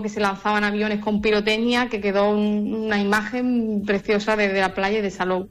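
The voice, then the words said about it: Andalusian Spanish accent. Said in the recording (Spanish): “ese acento no es de Salou precisamente ... De Sevilla, de Écija ... en Andalucía”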